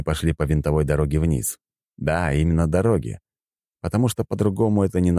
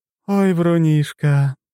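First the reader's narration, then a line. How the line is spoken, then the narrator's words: Sighing. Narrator (Russian): вздохнула Лора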